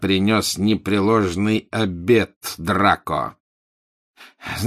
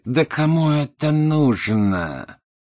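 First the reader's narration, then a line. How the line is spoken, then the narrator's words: Through gritted teeth. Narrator (Russian): процедил Малфой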